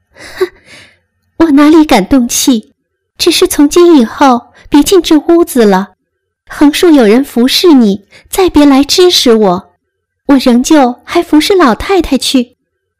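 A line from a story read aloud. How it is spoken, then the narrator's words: Cold sneer. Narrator (Chinese): 袭人冷笑道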